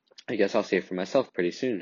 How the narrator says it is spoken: I said

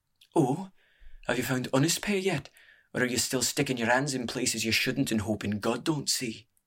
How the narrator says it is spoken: sighed

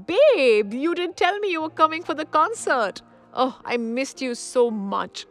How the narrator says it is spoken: shrieked Geeta

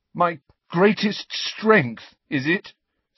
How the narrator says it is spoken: said Harry, his voice shaking

